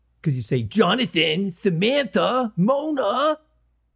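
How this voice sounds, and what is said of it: Imitates another person's voice. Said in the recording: “my Tony Danza impression ... It's really bad.”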